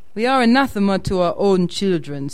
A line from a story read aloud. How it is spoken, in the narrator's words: said Erskine merrily, with a scale-jumping accent from high to low and back again